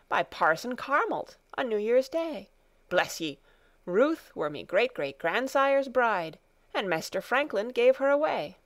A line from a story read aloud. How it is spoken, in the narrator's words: dalesman cried